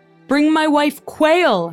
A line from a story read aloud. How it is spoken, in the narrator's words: Henry bellowed